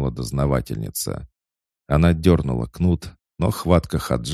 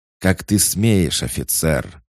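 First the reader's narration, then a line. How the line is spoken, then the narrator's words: Woman hissing. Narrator (Russian): шипела женщина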